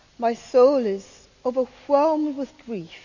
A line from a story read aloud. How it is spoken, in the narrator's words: he said